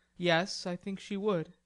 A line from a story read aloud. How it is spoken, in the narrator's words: returned Laurie gravely